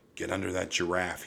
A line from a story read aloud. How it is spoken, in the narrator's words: whispered